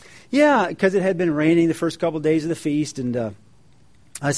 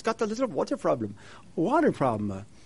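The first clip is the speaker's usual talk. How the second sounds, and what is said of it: Put-on thick German accent, elderly woman. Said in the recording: “Old German woman ... she's got this thick accent.”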